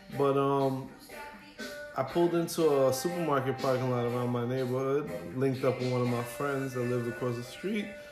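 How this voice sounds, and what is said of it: Bronx New York accent. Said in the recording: “I'm from the Bronx... Just off of the accent or the twang.”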